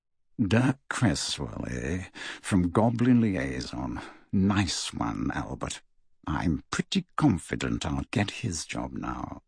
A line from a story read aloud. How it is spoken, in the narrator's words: leering, and muttered